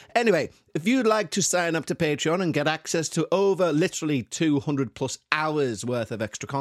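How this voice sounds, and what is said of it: Usual voice. Nothing is said of it.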